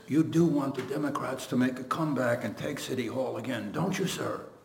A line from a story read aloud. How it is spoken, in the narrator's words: he whispers to the Solomon of Albany politics